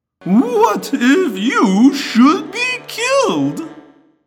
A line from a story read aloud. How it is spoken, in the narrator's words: Guide asked, lowering his whine to an annoying whimper